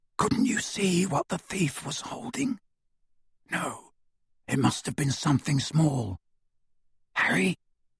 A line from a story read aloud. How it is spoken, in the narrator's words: Ron whispered